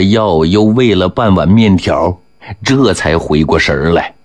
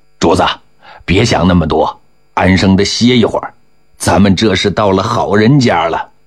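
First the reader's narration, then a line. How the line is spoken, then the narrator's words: Ingratiating, smiling. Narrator (Chinese): 任镜子陪笑说了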